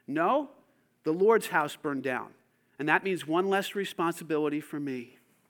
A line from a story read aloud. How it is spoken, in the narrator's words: Wesley calmly responded